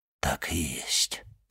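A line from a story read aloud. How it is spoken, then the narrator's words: Abbot whispering. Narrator (Russian): прошептал аббат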